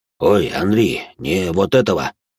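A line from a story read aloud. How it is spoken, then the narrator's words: Displeased voice. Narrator (Russian): Недовольным голосом произнес Жуль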